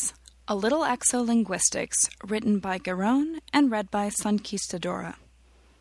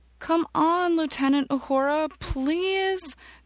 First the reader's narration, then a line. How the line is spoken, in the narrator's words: Minzaghi begged